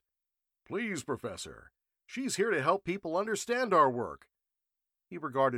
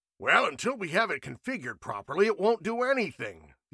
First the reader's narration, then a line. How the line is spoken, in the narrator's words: the older man grumbled